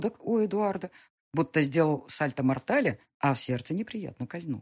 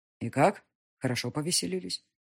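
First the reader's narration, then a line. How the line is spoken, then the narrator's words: Even, level voice. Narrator (Russian): спросил он ровным голосом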